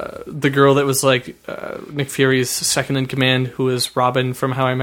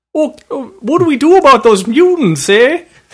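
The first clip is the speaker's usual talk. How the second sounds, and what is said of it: Put-on Canadian accent. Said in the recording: “Your stupid Canadian accent still coming out all the time”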